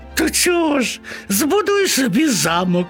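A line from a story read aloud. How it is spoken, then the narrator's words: Laughing. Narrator (Ukrainian): засміялися миші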